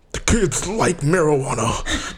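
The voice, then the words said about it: Bad Nixon impression. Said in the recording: “That was a horrible, horrible, horrible impersonation of Nixon.”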